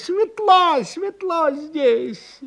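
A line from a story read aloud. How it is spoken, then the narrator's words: Excited shout. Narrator (Russian): Увидела улитка огонь и закричала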